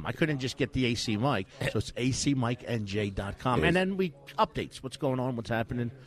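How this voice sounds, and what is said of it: South Jersey accent. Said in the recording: “You hear that accent? Yep. That South Jersey accent”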